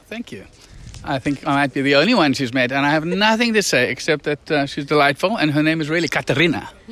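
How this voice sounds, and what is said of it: South African accent. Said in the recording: “you will notice his accent right off the bat. He is South African.”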